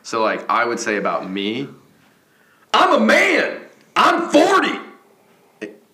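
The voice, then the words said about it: Mike Gundy impression. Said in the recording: “an impersonation of Mike Gundy in a post-game press conference”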